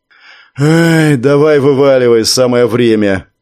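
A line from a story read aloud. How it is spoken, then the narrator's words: Sighing. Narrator (Russian): вздохнул Леха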